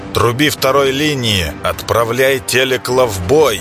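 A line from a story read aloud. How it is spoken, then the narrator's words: Growled order. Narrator (Russian): прорычал Клейдом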